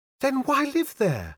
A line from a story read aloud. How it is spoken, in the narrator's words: She cried eagerly